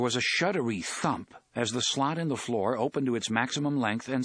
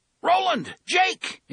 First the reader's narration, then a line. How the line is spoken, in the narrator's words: Eddie shouted